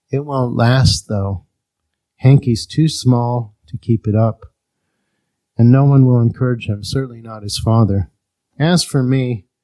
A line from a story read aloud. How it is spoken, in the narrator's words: said almost sadly